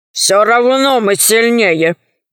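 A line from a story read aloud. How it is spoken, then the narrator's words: Grumbling sorcerer. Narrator (Russian): проворчал колдун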